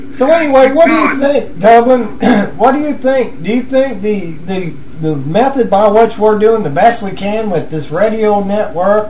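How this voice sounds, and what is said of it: Rural redneck-sounding American accent. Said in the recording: “Listen to my accent. I sound like a redneck.”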